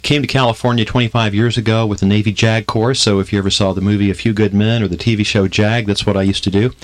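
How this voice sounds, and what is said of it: Southern Memphis twang. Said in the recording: “Originally from Memphis, so if you hear something of a twang in my voice, that's where I got that from.”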